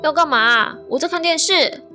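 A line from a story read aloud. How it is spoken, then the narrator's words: Shouting from another room. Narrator (Chinese): 我是从客厅向他喊说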